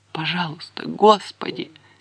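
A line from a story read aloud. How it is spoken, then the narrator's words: Quiet whimper. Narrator (Russian): тихонько проскулила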